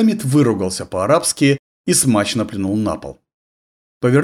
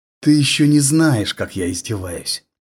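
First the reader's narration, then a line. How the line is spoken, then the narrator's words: Vicious hiss. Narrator (Russian): злобно прошипел араб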